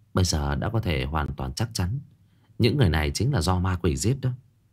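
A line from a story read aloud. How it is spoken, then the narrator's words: Quiet, low voice. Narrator (Vietnamese): Cô nhỏ giọng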